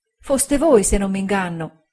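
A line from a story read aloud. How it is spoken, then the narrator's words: Voice choked with tears. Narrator (Italian): ella disse con voce soffocata dal pianto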